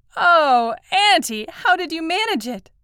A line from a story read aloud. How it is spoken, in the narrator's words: cried Madge